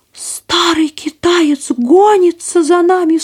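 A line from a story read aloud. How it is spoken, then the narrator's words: Shepherdess's sharp cry. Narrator (Russian): вскрикнула пастушка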